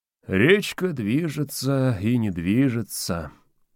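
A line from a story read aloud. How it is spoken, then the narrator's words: Purring. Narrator (Russian): промурлыкал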